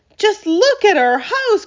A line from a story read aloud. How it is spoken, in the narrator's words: cried poor Mr